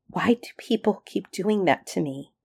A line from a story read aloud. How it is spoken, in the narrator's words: His voice caught for a moment, and then he went on